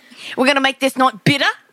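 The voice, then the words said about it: Put-on Australian accent. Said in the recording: “I know I'm doing the wrong accent ... Fucking Australian.”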